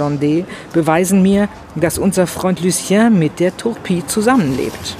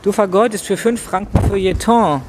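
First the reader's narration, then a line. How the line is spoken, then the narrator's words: Plain. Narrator (German): sagte Bixiou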